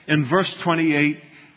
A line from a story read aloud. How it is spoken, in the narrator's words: he cried out